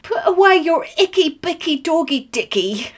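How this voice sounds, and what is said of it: Put-on English accent. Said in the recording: “a very good English accent”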